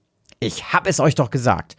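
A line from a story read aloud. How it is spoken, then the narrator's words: Excited. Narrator (German): sagte Ernst aufgeregt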